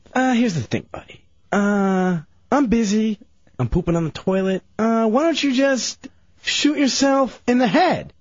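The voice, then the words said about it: Awful impression of another host. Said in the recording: “Is that an impression of me? ... his awful impression.”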